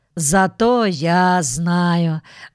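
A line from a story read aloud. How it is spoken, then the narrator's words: Sighing. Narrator (Russian): вздохнул Джонатан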